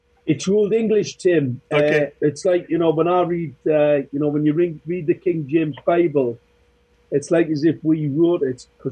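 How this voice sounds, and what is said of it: Thick northern English Geordie accent. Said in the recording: “got that really thick northern accent ... The Geordies”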